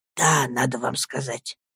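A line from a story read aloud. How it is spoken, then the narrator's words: Whispering. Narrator (Russian): шепотом заговорил он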